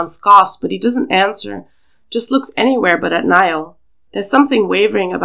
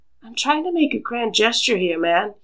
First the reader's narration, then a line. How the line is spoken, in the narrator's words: he says softly